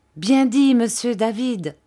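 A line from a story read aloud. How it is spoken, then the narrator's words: Enthusiastic exclamation. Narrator (French): s'écria Ham avec enthousiasme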